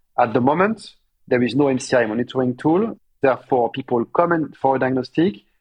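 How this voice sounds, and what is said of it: French accent. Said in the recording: “You've given it away by your French accent.”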